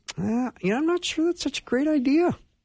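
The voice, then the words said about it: Suddenly high-pitched squeaky voice. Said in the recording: “why my voice went up all of a sudden ... that might just be the dissenter voice ... that's more of a Mickey Mouse voice”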